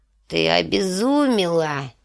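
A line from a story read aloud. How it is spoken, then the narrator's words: Hoarse. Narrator (Russian): хрипло проговорила Божья жена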